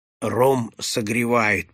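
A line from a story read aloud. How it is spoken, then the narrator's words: Old man mumbling. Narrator (Russian): пробормотал старик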